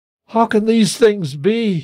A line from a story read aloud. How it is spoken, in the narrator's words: exclaimed